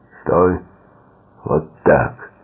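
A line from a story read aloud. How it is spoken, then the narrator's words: Booming voice. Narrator (Russian): прогремел голос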